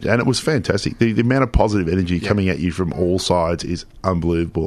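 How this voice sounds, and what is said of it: Husky, partly lost voice. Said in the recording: “my voice is a bit husky and a bit hard to do my growl tonight is because I lost it. Yelling at the crowd”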